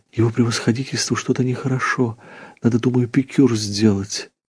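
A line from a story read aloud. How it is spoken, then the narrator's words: Whispered. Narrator (Russian): зашептала Марья Ильинична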